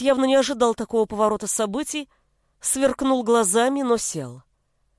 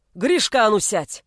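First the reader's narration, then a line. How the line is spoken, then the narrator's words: Bellowing father. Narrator (Russian): гаркнул отец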